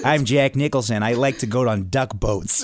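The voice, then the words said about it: Imitates another person's voice, Boston accent. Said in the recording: “try to do Jack Nicholson voice. He's in The Departed, he's faking a Boston accent... I'm terrible at voices.”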